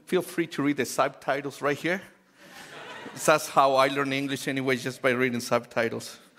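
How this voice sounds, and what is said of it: Noticeable non-native English accent. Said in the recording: “I do have an accent. And if you cannot understand my accent,”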